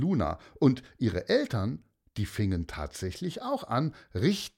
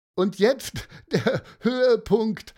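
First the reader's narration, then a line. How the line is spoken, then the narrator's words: Laughing together. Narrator (German): lachten Mareike und Matteo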